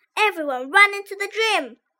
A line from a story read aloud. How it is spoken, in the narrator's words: shouted Miss Storm